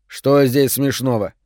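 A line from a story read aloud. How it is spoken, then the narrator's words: Stern question. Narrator (Russian): строго глядя в класс, спросил он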